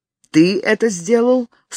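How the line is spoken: Stern question. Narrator (Russian): строго спросил его Том

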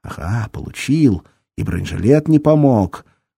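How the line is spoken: Ecstatic angry growl. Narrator (Russian): Мамочка зарычала от переполняющего ее восторга и злобы

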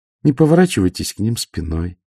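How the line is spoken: Calm. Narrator (Russian): спокойно сказала Ангва

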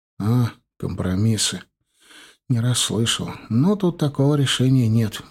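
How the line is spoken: Sad wry chuckle. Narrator (Russian): грустно усмехнулся Костян

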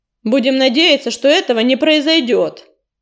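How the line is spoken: Sharp reply. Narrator (Russian): резко ответил Огнезвезд

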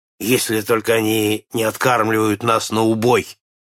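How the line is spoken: Grumbling. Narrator (Russian): проворчал Нед

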